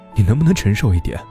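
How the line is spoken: Exasperated sigh. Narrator (Chinese): 我叹了一口气

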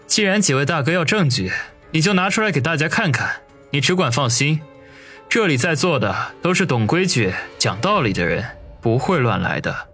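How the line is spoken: Calm, faint smile. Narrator (Chinese): 王宇淡淡一笑

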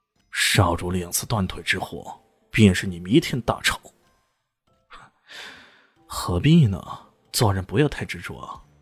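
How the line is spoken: Cold. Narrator (Chinese): 肖磊冷冷的说道

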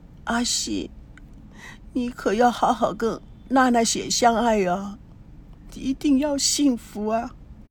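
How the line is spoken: Murmuring to herself. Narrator (Chinese): 她喃喃自语

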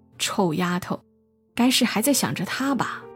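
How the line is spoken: Confident muttering to herself. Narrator (Chinese): 母亲一脸笃定的喃喃自语

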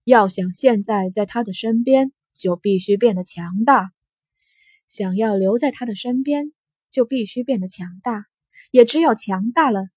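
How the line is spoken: Calm, indifferent. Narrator (Chinese): 安阳城淡淡的开口

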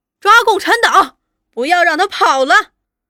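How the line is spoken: Distant persistent yelling. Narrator (Chinese): 那跛足的…远远的掉在后头，却直嚷叫

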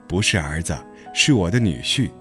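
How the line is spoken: Mother, laughing. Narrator (Chinese): 牛牛母亲笑着说

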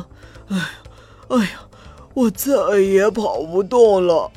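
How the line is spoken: Panting heavily. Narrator (Chinese): 驴子喘着粗气说

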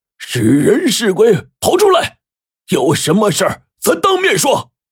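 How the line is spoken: Angry shout. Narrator (Chinese): 他就朝着发出怪声的方向怒喊

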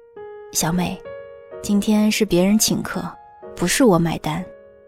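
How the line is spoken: Soft, head down. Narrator (Chinese): 埋头轻声说

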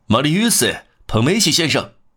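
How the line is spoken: Shouting. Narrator (Chinese): 喊道

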